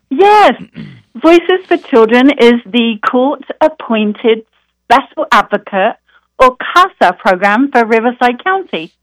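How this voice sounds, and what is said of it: British accent. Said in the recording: “I love your British accent ... she was from Great Britain as well. Had a lovely accent”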